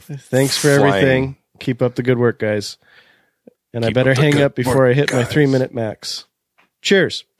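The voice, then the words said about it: Imitates another person's voice. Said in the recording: “That was my best impression of Paul from Fairfax.”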